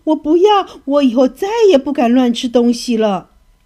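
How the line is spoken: Terrified shout. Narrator (Chinese): 小金鱼吓得只想逃，它大喊着说

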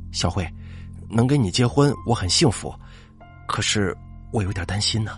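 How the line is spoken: Quiet sigh. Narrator (Chinese): 李瑞佳 默默的叹了口气，说道

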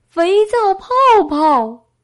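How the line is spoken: Repeated calling out. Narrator (Chinese): 小丑嘴里仍然不停的对着气球喊着

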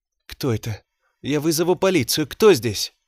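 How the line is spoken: Trembling voice. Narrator (Russian): Дрожащим голосом бросила

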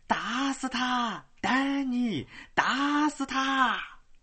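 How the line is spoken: Crowd howling like wolves. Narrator (Chinese): 无数个声音随着叫起来，好像一片狼嚎

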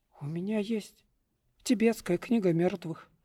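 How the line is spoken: Hopeful mumble. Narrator (Russian): промямлил я с некоторой надеждой

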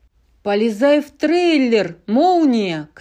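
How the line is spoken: Shouting. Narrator (Russian): кричал Гарф

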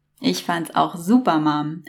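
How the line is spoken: Calling from a distance. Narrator (German): rief William, der in etwa 10 Meter Entfernung

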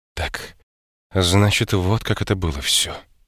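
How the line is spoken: Quiet. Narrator (Russian): тихо сказала она

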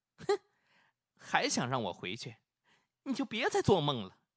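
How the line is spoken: Cold. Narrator (Chinese): 冷冷的对他说了

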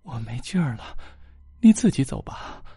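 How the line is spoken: Panting, breathless. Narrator (Chinese): 母亲喘着粗气道

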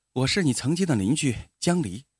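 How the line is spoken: Calm, flat. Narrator (Chinese): 江离淡淡的说

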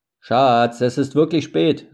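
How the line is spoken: Calling out. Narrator (German): rief Mark

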